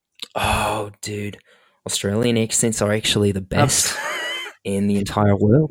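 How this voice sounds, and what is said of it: Poor attempt at Australian accent. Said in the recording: “Doesn't love a good Australian accent? ... That was my poor attempt.”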